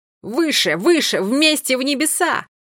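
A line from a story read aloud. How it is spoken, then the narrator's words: Militant shout. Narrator (Russian): Милан воинственно крикнул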